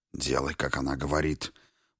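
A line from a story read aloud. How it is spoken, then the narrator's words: Hiss. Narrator (Russian): прошипел Веспа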